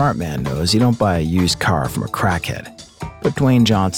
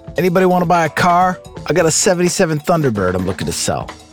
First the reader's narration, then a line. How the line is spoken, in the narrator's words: The guy was shouting